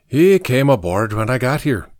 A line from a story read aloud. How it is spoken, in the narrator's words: Patrick said in his Irish brogue